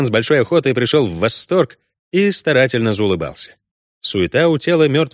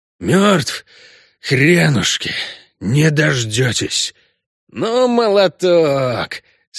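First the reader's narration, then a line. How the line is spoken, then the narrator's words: Angry hoarse rasp. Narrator (Russian): Откашлявшись, Геральт зло прохрипел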